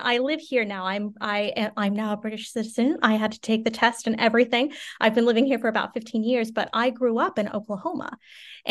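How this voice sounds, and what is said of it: American Midwestern accent. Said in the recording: “I'm from the Midwest, so you can hear in my accent.”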